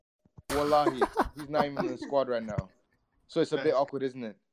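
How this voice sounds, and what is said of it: Irish accent. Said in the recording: “I've never heard that in an Irish accent.”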